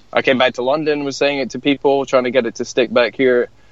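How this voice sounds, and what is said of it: Scottish accent. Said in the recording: “your Scottish accent”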